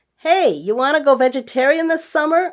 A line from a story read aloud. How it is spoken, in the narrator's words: I yelled to my husband